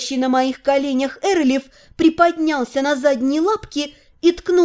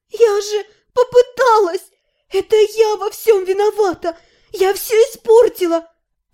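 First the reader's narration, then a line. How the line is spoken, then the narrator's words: Sobbing. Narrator (Russian): У меня вырвалось рыдание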